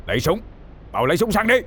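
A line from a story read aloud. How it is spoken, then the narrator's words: Yelled through gritted teeth. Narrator (Vietnamese): Ông Sùng nghiến răng, mặt tái mét, quay đầu hét lớn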